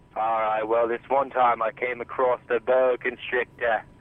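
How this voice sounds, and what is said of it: Fake Australian accent. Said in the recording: “Did you just put on a fake accent? ... a fake Australian accent”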